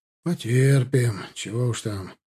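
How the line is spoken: With a sigh. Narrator (Russian): вздохнув, проговорил штабс-капитан

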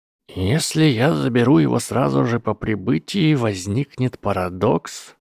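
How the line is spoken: Old man muttering to himself. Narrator (Russian): пробормотал старый волшебник сам себе

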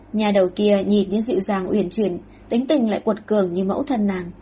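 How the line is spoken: Smiling mutter to self. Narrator (Vietnamese): mỉm cười, lẩm bẩm như tự nói với mình

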